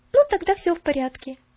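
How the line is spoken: Cheerful. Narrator (Russian): весело сказала она

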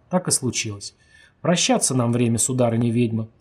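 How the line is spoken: Calm. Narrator (Russian): спокойно сказал он

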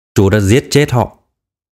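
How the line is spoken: Cold, clipped. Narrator (Vietnamese): Phổ Phổ lạnh lùng thốt ra mấy chữ

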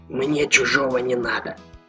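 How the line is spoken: Curt mutter. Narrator (Russian): буркнул Джеймс Лопес

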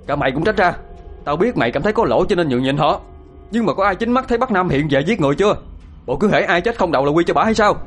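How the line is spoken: Shouting angrily. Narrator (Vietnamese): Thiên đã quát tháo

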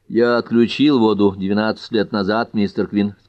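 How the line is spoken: Plain. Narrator (Russian): сказал Тальбот Фокс

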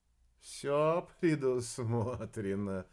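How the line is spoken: Laughing. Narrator (Russian): рассмеялся Арбидолочек

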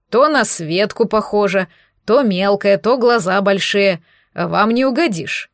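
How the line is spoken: Grumbling. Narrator (Russian): пробурчал Леонид Петрович

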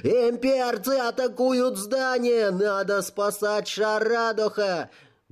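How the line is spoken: Cracking voice, full-force shout. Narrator (Russian): Срывающимся голосом я прокричал, что было сил

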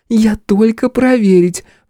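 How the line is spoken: Drunken girlish giggle. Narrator (Russian): пьяно хихикнула внучка

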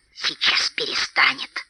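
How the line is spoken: Spiteful hiss. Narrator (Russian): злобно прошипел паук

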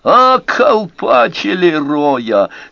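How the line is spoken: Said laughing. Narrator (Russian): сказал Энди, и по его хохоту

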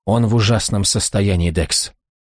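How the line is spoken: Tearful whisper. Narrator (Russian): прошептала со слезами на глазах

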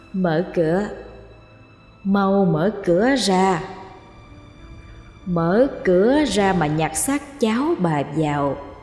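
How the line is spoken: Soft calling. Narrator (Vietnamese): Nó gọi khe khẽ

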